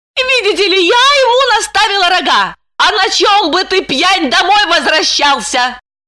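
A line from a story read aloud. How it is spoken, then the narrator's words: Hateful shout. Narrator (Russian): С ненавистью прокричала она в глубину квартиры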